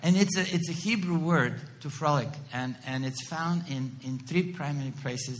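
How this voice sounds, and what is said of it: Non-native English accent. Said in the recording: “my accent is that bad ... I know I'm not speaking that well English”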